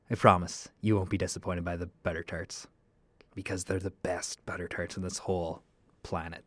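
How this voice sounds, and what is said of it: Quieter, softer than usual voice. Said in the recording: “my voice is a little bit different ... my stage voice, my mic voice, which is a little quieter than normal”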